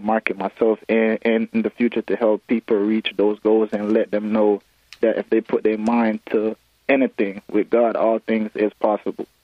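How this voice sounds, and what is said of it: Jamaican accent. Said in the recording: “who is from Jamaica, you can hear the accent there”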